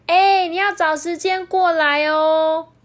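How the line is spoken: Calling out from behind. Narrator (Chinese): 玛丽在后面喊着说

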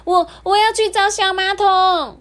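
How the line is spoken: Shout. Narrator (Chinese): 他大叫说

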